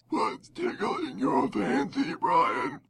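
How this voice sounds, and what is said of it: Scary voice. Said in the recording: “You can do it in a scary voice.”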